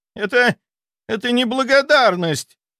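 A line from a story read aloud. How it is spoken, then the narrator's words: Shrill squeal, spluttering. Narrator (Russian): взвизгнул Рудаков, брызгая слюной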